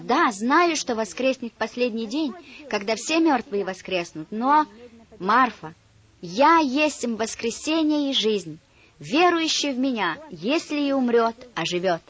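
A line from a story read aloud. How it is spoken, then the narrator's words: Plain. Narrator (Russian): сказал Иисус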